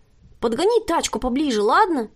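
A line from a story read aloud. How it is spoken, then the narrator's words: Shouted. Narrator (Russian): крикнула незнакомка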